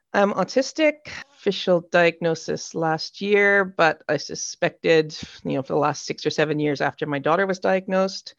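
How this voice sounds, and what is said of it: Canadian accent. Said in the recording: “I'm originally from Canada, as you can hear in the accent”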